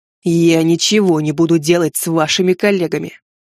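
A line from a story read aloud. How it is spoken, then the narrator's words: Commanding battlefield growl. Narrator (Russian): прорычал Матс, голос, как у генерала в разгаре сражения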